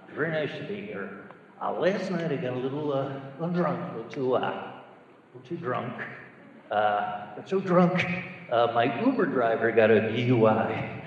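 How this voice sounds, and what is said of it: Johnny Carson impression. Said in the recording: “let me do a impression of Johnny Carson if he's still doing the monologue today”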